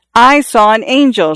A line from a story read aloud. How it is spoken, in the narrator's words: Xiao Shui screamed